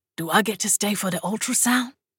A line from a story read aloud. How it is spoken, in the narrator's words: Zed whispered